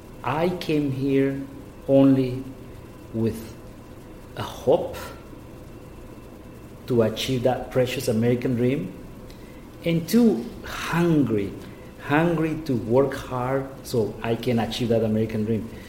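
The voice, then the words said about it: Noticeable foreign accent. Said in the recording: “Everybody hears that I have an accent, which I'm very proud of it ... I didn't didn't want to lose my accent”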